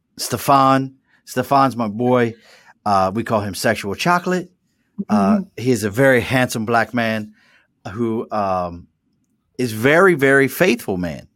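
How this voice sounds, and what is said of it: Mild Baltimore mid-Atlantic accent. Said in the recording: “my accent. I have a very Baltimore, mid-Atlantic Baltimore accent, and it's actually dulled down”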